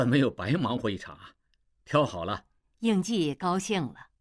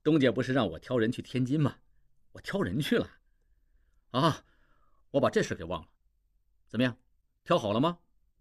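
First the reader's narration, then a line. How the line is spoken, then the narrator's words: Laughing. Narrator (Chinese): 王宗宇笑道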